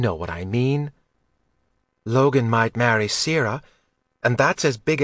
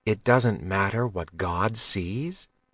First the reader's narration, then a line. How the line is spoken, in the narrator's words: Mags asked gently